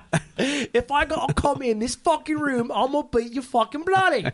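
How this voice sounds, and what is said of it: Put-on British accent. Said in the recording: “Perfect British accent... That is flawless.”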